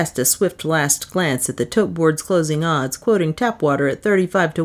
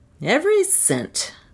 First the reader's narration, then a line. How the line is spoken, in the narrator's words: I told her cheerfully